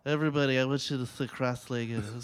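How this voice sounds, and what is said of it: Imitates another person's voice. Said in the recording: “My Brando impression. ... Very good.”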